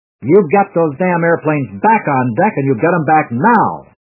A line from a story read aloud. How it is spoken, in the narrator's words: Admiral David McDonald bellowed